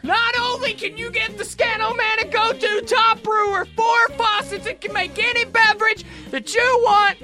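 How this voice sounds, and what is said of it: Loud shouting infomercial announcer voice. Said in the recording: “my infomercial voice ... the really loud guy. Nobody knows why he's shouting.”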